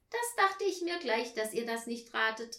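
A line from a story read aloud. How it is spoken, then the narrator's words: Call. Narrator (German): rief Tina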